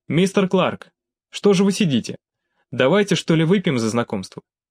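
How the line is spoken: Cheerful. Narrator (Russian): весело произнес Алексей

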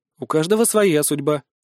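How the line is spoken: Calm reply. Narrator (Russian): спокойно отозвался я

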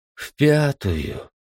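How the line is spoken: Disappointed drawl, woman. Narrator (Russian): разочарованно протянула женщина

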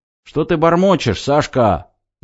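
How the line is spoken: Deafening yell in ear. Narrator (Russian): заорали мне в ухо так сильно

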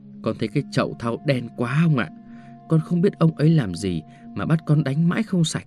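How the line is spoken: Servant boy whispering. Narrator (Vietnamese): thằng đầy tớ thì thào với ông

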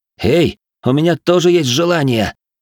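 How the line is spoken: Hoarse rasp. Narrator (Russian): прохрипел я

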